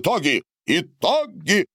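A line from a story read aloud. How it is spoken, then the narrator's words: Yelling. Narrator (Russian): завопил Борис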